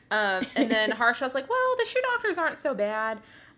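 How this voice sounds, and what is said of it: Slight Irish accent. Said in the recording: “That's a pretty good Irish accent at the beginning on accident... it sounded like an Irish accent a little bit. It was good.”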